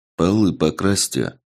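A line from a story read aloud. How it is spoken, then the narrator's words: Grumbling. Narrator (Russian): Буркнул я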